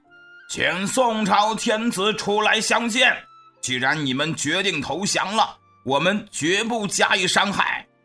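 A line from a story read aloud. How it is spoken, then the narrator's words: Shouting. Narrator (Chinese): 辽国天庆王率领众将高喊道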